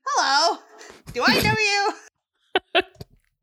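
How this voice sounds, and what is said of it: Entrapta character voice. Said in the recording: “do the Entrapta voice. You are the best at it.”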